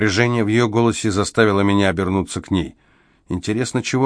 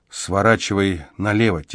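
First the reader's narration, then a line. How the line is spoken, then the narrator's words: Quiet advice. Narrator (Russian): тихо посоветовала Эмзел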